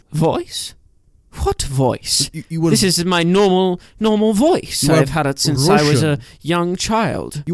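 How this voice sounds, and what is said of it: Put-on Russian accent. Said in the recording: “What is voice you're doing? ... You are Russian ... We are in Soviet Russia, and this is how we talk here ... this is the accent that Brenton should use”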